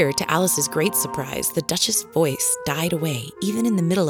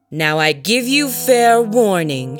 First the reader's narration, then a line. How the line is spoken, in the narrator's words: shouted the Queen